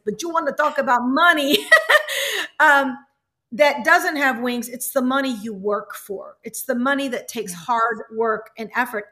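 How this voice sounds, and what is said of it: Imitates another person's accent. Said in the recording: “Let me try to do his accent.”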